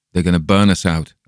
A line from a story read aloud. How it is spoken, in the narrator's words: I exclaimed